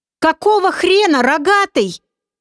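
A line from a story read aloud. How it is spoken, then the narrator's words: Full-force yell. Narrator (Russian): что было мочи, заорал Олег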